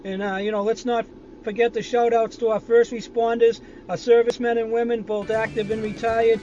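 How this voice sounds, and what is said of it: Boston accent. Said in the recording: “Boston Danny ... that's a real person with a real accent”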